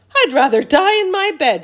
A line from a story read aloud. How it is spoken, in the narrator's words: shouted Grandma Josephine